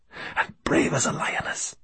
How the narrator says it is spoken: whispered Farid

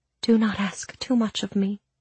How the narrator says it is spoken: she said softly

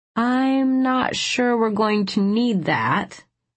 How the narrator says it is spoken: I started slowly

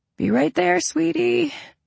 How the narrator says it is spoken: I croaked

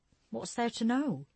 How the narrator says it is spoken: Jessie asked, her brows pinching tightly

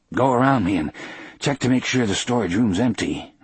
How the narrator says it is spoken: I gasped to Harry

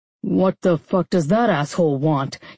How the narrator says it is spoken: He growled into the phone

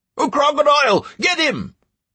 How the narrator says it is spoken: A shout came from an NPC, which immediately drowned out the buzz from the players

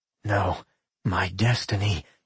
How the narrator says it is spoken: he whispered

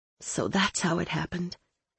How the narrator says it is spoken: I said, my voice hoarse

